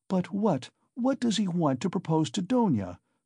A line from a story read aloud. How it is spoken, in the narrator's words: cried Pulcheria Alexandrovna in a fright